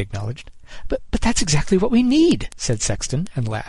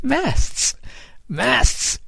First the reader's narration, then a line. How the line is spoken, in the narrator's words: Kid cried, and he too burst out laughing